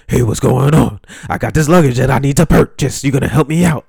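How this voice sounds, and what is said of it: Imitates another person's voice. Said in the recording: “my best DMX impression. ... he talks like this”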